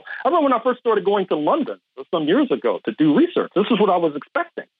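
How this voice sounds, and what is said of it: American accent. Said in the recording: “I've been told I have a U.S. accent. ... Very much so, yes. I could attest to that.”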